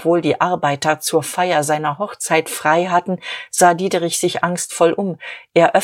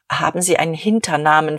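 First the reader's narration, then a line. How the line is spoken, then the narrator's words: Plain. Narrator (German): fragte Dieterich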